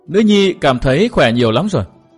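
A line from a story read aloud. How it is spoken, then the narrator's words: Smiling. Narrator (Vietnamese): Mai Lãnh Tuyết mỉm cười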